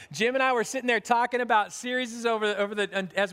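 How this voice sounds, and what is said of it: Usual voice. Nothing is said of it.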